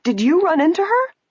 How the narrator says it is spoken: The woman, seeing Nancy's car, asked excitedly

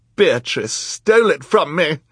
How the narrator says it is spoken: Esme cried

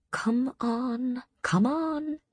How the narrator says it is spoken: Amryn murmured

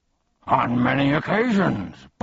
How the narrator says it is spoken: barked Tuck

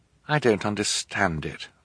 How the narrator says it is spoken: Violet said miserably

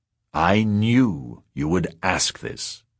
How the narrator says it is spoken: he said

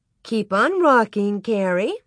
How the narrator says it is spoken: Miss Wilder said sweetly

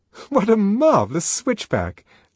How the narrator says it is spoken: Lenina laughed delightedly

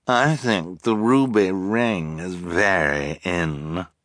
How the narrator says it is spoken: Esme purred

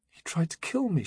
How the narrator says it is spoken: she whispered

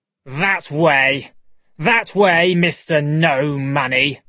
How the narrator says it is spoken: Davis shouted

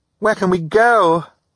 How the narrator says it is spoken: Violet cried

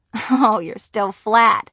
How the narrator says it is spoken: Nancy laughed

